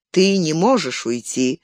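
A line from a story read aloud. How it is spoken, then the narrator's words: Sighing. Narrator (Russian): вздохнул Хелдер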